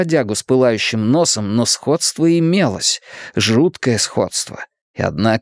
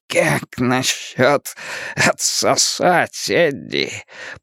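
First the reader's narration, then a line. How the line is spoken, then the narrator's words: Hoarse monstrous wheeze, grinning. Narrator (Russian): прохрипело чудовище, ухмыляясь остатками рта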